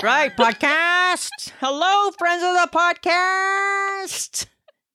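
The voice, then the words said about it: Old-time radio style pronunciation. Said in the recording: “Sounds funny how I say that, hey? ... Like I got gum caught on the back of my teeth or something ... That sounds like something out of like the 30s or 40s when they're in the radio”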